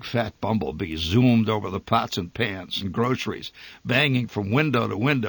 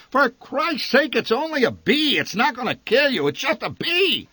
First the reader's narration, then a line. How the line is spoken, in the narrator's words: The old man shouted above her shrieks